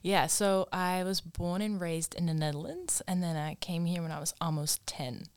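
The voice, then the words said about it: Slight non-Australian accent. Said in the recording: “we detect a little bit of an accent... you don't sound like your typical Aussie female”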